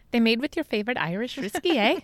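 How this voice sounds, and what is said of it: Put-on Irish accent, fairly decent. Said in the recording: “I was going to try to do an Irish accent with that ... That's not too bad.”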